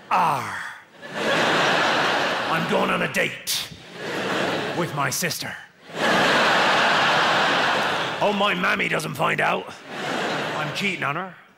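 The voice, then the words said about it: Put-on West Country pirate voice. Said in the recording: “the easiest accent in the UK is the West Country, because the West Country is just a pirate voice”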